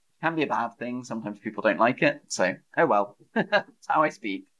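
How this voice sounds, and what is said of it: Somewhat posh British English accent. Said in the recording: “a lot of people tell me that my accent is a bit posh. But I don't think I'm like crazy, crazy posh ... I don't speak like how the royals speak ... my accent is considered a bit posh”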